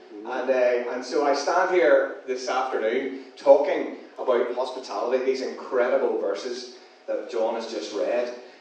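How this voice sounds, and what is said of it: Non-local accent. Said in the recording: “as you can tell from the accent ... You can tell this accent does not come from around here”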